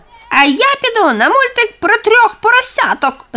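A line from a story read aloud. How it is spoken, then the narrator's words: Shrieking girl. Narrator (Ukrainian): заверещала одинадцята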